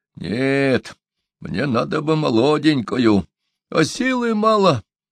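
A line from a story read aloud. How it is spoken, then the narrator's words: Sighing. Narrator (Russian): вздохнул шаман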